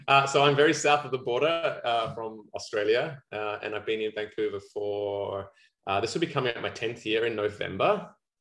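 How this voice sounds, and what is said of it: Australian accent. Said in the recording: “Clearly, you don't sound like you're from Vancouver ... I haven't quite lost my Aussie accent yet”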